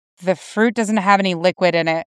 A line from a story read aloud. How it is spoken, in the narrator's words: Jason muttered